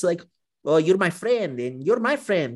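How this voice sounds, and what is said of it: Terrible imitation of a foreign accent. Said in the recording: “That's a terrible accent, but you know, you've heard Leclerc talk and you've heard Verstappen talk.”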